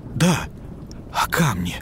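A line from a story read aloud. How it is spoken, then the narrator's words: Rapid whisper, swallowing words. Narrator (Russian): быстро зашептал режиссер, почти проглатывая слова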